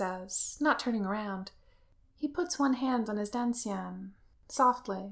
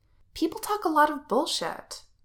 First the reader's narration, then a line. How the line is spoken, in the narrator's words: Wen Qing says, sharply